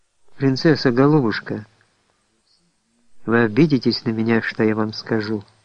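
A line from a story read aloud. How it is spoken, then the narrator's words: Warm, tender voice. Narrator (Russian): произнес задушевным, ласковым голосом Андрюша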